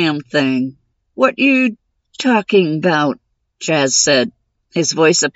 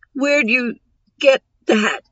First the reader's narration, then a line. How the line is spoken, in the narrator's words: Jaez croaked, his eyes wide